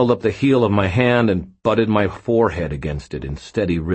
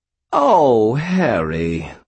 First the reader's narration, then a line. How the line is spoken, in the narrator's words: Bob said, his voice profoundly disappointed